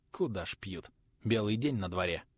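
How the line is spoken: Scoffing snort. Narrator (Russian): Хмыкнул

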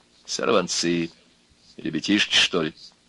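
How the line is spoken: Quiet. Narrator (Russian): Сказала негромко

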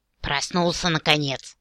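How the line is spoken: Displeased gnome snapping. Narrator (Russian): огрызнулся недовольный гном

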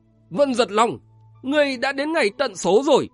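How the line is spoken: Loud shout. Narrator (Vietnamese): một tiếng quát to

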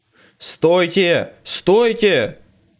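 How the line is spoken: Leader yelling. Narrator (Russian): вопил вожак

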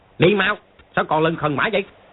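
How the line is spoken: Barked command. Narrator (Vietnamese): quát

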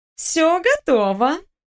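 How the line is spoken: Cooing. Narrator (Russian): проворковала Наташка

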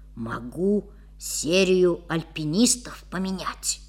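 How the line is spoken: Whisper. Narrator (Russian): шепнул приятелю

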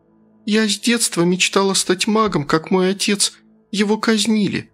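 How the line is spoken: Sad, said by a girl. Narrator (Russian): печально продолжила девушка

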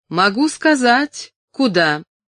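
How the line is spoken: Calling after someone. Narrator (Russian): Тед крикнул ему вслед

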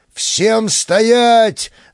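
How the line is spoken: Yelling. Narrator (Russian): заорал Бычков

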